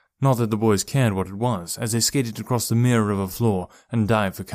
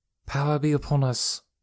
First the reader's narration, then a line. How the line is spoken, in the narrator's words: murmured the rest of the women